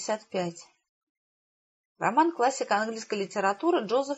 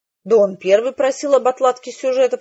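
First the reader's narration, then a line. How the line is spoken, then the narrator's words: Grumbling. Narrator (Russian): проворчал Хэвишем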